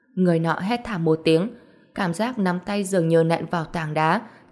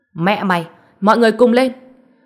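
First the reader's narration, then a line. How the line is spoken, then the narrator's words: Loud yelling. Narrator (Vietnamese): Tiết Bác lớn tiếng kêu gào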